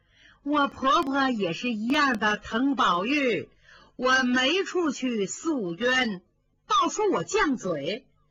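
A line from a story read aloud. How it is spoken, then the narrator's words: Laughing. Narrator (Chinese): 凤姐笑了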